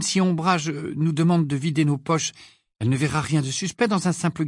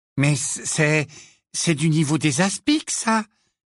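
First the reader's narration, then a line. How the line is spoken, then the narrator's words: Timid voice. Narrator (French): dit-il d'une voix timide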